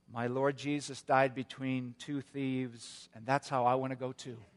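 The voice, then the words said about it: Very weak, feeble voice. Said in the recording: “in a very weak voice”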